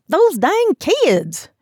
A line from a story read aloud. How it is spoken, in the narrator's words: said in a thick southern accent